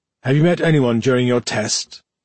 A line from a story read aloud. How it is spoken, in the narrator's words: Tendris asked